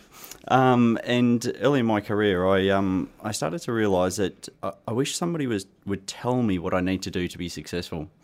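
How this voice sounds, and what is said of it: Australian accent. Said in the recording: “I started my career actually in Australia, hence my accent.”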